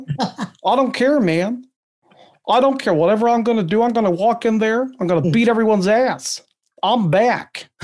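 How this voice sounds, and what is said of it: Wrestler impression of Brock Lesnar. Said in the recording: “You do many wrestling impersonations ... other than Stone Cold? ... I did Brock a couple of years ago.”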